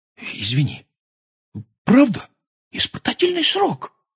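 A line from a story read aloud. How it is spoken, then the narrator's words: Whispered repetition. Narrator (Russian): повторил он шепотом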